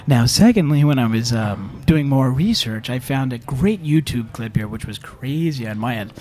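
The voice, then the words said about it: Put-on public radio host voice. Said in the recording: “I have to get my NPR voice here.”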